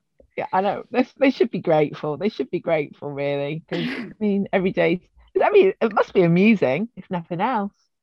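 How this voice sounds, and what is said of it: Voice sounds a bit off. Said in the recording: “my voice sounds a bit weird ... is that the real ... a voice that's been brought to you by tequila and bad decisions”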